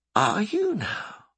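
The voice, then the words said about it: Soft lilting questioning voice. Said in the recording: “with a soft lilt that made it seem like a question”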